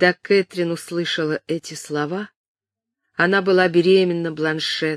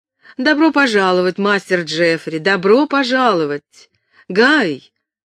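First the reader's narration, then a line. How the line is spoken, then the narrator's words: Shout over shoulder. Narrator (Russian): крикнула она через плечо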